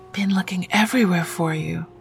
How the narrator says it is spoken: Masika whispered

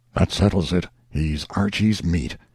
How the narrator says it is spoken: one voice after another muttered

